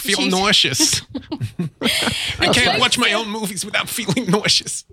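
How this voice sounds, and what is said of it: Imitates another person's voice. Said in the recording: “That's not a bad impression. ... That's very good.”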